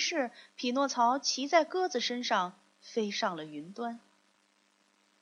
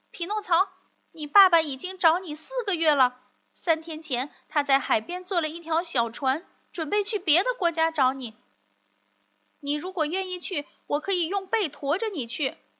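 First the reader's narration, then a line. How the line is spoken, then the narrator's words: Bird calling loudly from above. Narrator (Chinese): 一只鸽子飞过他的头顶，向他大声喊着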